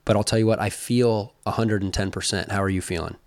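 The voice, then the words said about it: Slightly raspy voice. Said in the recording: “There's still a little raspiness, I think. ... I do sense a little bit of raspiness.”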